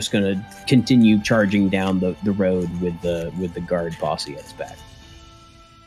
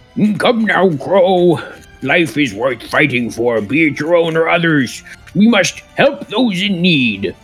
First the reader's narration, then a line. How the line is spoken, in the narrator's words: he kind of shouts out to Crow